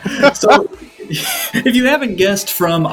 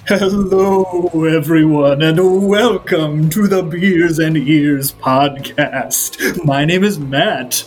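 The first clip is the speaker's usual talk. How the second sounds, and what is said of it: Spooky voice. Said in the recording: “in spooky voice ... our spooky voices”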